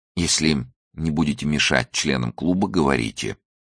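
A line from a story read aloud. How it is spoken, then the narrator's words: Hoarse. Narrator (Russian): хрипло произнес он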